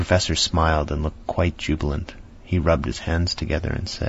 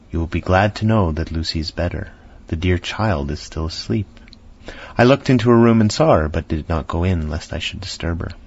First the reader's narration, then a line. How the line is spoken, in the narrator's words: She greeted us warmly and said